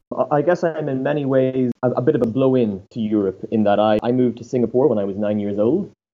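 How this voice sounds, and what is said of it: Irish accent. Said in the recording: “He's Irish, as you can see by his accent”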